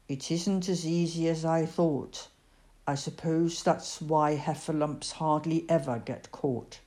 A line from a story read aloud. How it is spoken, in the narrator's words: He thought for a long time and then added sadly